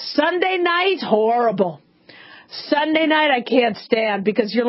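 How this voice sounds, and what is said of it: Usual voice. Nothing is said of it.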